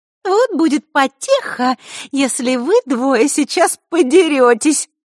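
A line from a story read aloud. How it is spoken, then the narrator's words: Sweet little voice. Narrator (Russian): проговорила сладким голоском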